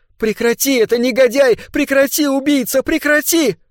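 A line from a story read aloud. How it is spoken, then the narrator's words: Desperate shout over noise. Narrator (Russian): к ней вернулся голос, и хотя она не могла слышать себя в этом шуме, все же закричала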